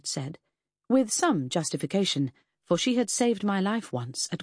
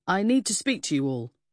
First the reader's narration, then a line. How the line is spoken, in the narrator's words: Marjorie boomed unexpectedly